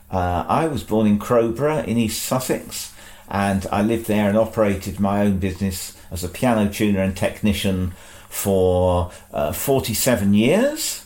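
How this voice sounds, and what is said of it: Non-Aberdeen accent. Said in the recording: “As you can hear from my accent, I was not born in Aberdeen.”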